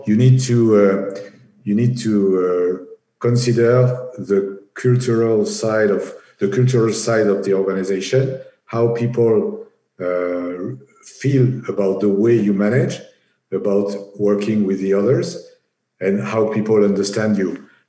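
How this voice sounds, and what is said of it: Strong French accent in English. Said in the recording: “I speak English with a horrible French accent”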